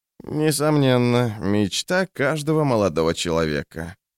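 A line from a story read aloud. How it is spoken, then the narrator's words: Creaky voice. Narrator (Russian): проскрипел Орса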